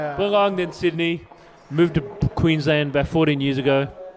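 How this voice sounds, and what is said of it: Broad Australian ocker accent. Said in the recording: “the okka ... accent ... The okka”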